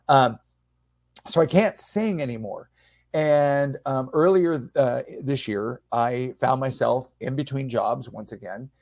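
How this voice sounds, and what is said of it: Raspy, strained speaking voice. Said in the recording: “the radiation destroyed my singing voice ... You might even hear my voice starting to get raspy now just from talking.”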